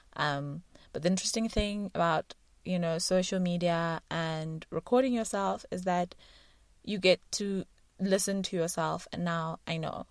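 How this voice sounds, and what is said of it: South African accent. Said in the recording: “the South African constituency and my accent”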